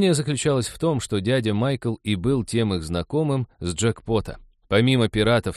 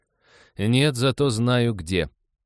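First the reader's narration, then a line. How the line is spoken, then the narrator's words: Snort. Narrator (Russian): Лиза хмыкнула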